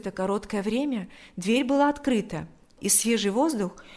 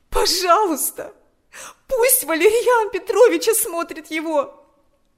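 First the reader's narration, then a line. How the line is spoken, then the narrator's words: Pleading. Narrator (Russian): взмолилась она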